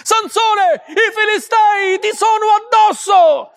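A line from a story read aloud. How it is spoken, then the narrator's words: Shouted again. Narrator (Italian): gridò di nuovo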